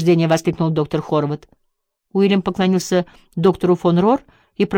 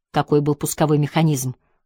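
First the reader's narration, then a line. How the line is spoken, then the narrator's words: Whisper in ear. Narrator (Russian): шепнул австрияк на ухо Джеку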